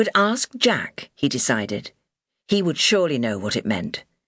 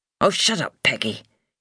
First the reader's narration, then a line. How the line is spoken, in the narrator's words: said irritably